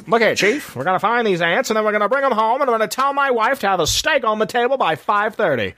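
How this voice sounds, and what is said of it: Old-movie transatlantic accent. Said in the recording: “I love the transatlantic accent.”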